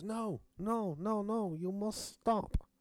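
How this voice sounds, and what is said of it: Imitated nondescript foreign accent. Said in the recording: “She was from a nondescript foreign country, just in case you wondered what that accent was.”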